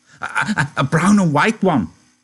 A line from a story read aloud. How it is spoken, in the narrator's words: Lenny cried excitedly